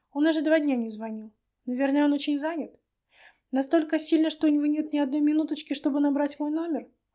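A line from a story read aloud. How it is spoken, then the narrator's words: Sad sigh. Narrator (Russian): Рудкова грустно вздохнула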